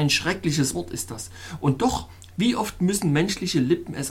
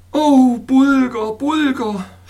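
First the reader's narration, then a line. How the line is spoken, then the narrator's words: Groaning. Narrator (German): stöhnte ich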